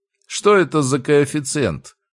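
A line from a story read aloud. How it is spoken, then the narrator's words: Inquiring teacher. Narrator (Russian): поинтересовался препод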